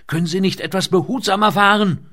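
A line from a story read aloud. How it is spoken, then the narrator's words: Shout into ear. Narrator (German): schrie sie ihm ins Ohr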